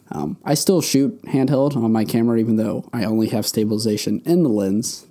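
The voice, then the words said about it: Strained, fading hoarse voice. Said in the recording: “I think I'm losing my voice as we're talking more”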